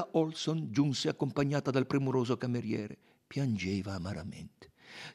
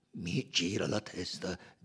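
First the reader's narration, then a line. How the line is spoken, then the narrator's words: Groaning. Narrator (Italian): gemette Monsieur Buck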